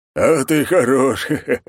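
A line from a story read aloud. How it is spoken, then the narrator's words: Laughing. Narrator (Russian): засмеялся он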